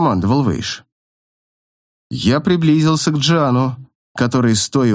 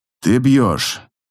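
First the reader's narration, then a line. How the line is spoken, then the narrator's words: Plain. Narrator (Russian): сказал Вэйш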